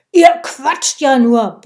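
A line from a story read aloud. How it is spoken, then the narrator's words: Woman bellowing. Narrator (German): brüllte die Bratwurstfrau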